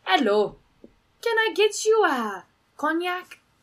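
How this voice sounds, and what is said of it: Very fake French accent. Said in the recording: “the most fake like French accent I've ever heard”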